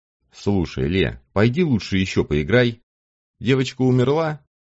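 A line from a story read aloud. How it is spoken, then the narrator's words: Innocent tone. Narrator (Russian): Вопрос был задан совершенно невинным тоном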